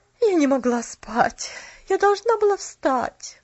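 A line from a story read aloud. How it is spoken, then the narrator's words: Weary sigh. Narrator (Russian): Устало вздохнула тетя Полли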